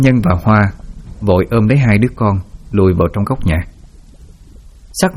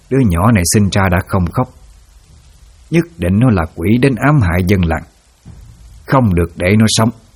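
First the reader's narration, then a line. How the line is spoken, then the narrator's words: Harsh, gritted voice. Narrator (Vietnamese): bà ta gằn giọng nói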